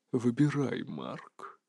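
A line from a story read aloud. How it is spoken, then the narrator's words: Whispered. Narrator (Russian): прошептал он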